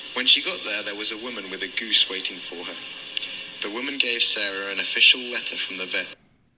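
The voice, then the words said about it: Southern English home counties accent. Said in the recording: “Southern England ... It's Surrey. ... It's like home counties accent.”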